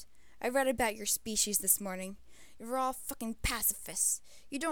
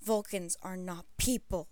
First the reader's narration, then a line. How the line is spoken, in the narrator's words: he snarled